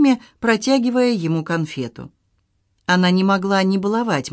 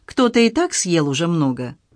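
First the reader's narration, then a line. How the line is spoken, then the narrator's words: Stern reply. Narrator (Russian): Кими строго ответила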